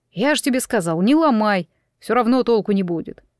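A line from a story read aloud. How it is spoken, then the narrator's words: Good-natured grumble. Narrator (Russian): проворчал, впрочем, беззлобно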